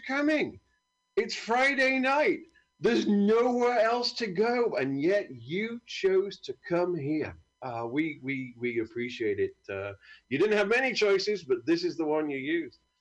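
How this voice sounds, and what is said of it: British English accent. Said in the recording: “My name is ... I'm not exactly from round here. ... This is the accent you could have had”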